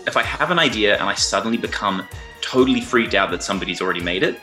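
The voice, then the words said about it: Australian accent. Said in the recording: “Is that an Australian accent?”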